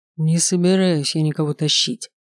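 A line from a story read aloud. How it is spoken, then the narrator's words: Through gritted teeth. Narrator (Russian): сквозь зубы произнес он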